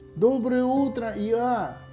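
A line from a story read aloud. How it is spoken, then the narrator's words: Distant shout. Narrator (Russian): крикнул еще издали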